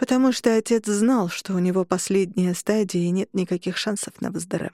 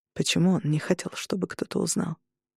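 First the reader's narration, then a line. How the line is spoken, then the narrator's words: Sighing. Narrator (Russian): Я вздохнула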